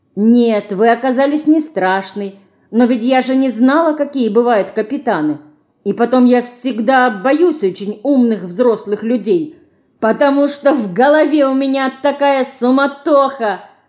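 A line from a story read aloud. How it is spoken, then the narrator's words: Laughing girl. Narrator (Russian): засмеялась Динка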